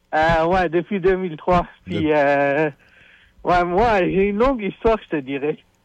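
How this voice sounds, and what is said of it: Non-native Quebec French accent. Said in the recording (French): “de par ton accent, je dénote que t'es probablement pas né ici ... un accent d'importé”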